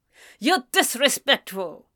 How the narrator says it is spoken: James snapped

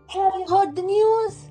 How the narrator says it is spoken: He cried

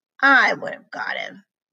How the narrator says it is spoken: I muttered

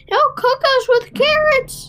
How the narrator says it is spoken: cried the third

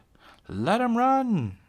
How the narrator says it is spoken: Lena shouted

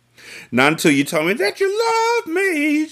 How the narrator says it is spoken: she decided playfully

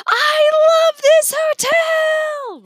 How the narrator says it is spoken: Remy screamed

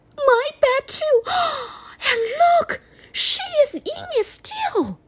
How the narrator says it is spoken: Baby bear squeaked

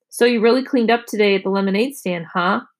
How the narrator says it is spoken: she said

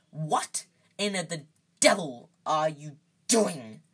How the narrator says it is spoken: said Uncle Vernon through gritted teeth

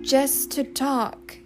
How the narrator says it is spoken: he repeated pleadingly

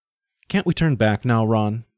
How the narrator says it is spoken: Val pleaded

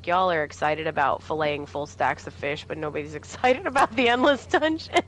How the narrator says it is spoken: Finn was like laughing because he's like

